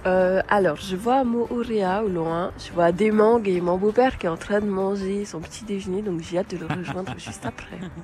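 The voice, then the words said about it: Slight regional French accent. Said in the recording (French): “J'adore votre voix avec ce petit accent qui nous emmène déjà très loin”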